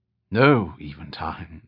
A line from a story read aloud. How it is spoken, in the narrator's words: the tall man replied softly